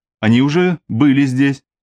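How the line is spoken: Plain. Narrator (Russian): ответила Лера

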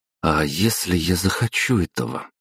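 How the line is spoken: Young woman, through gritted teeth. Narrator (Russian): процедила девушка

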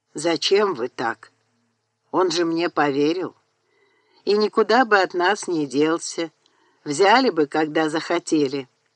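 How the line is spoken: Muffled voice. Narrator (Russian): Бенджамин, не обронивший до сей поры ни слова, глухо сказал

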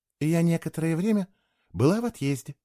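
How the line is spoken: Soft. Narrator (Russian): мягко пояснила Кейла

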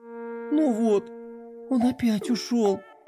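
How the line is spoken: Upset sigh, princess. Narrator (Russian): расстроенно вздохнула лунная принцесса

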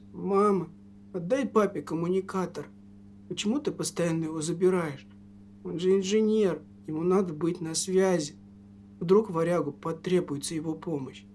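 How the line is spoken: Weak voice. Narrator (Russian): Сын слабым голосом произнес

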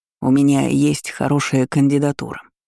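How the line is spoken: Quick speech. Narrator (Russian): быстро произнес советник

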